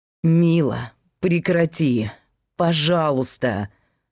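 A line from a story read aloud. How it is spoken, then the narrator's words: Through gritted teeth. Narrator (Russian): процедил Павел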